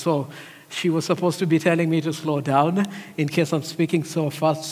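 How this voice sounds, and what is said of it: Fast speech, mixed foreign accent. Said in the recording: “I speak very fast ... my accent that is a mixture of three languages”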